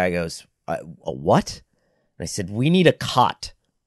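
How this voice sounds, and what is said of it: Usual voice. Nothing is said of it.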